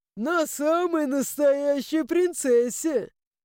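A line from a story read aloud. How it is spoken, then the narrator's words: Ghost laughing. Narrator (Russian): Рассмеялся призрак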